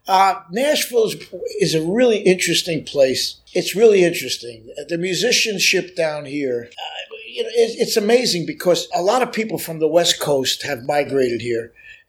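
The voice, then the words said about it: New York accent. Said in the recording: “Obviously, you're born in New York ... I don't fool anybody with my accent. They know exactly. They know exactly where I come from”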